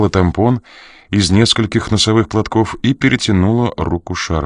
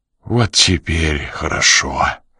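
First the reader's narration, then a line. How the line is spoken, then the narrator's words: Exhaling with relief. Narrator (Russian): выдохнул Ян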